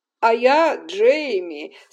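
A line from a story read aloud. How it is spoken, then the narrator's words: Laughing. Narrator (Russian): смеясь, сказал ее кузен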